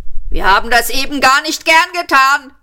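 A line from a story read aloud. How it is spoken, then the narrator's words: Policeman shouting. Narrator (German): schrie der andere Polizist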